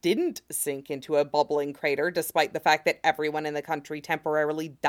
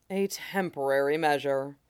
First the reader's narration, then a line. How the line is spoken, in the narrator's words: Roy says in an appropriately regretful tone